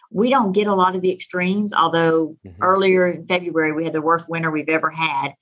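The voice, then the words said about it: Texan accent. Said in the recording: “I am a native Texan, if you can't tell from my accent”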